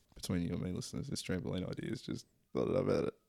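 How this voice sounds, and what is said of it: Whispered aside. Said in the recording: “That's why I'm whispering.”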